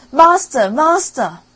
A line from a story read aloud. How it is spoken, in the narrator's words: the harp cried out